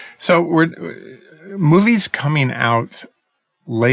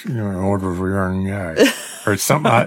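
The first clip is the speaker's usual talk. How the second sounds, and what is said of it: Mumbling imitation of another person's voice. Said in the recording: “get mush in his mouth ... my bad Jeff Bridges impression.”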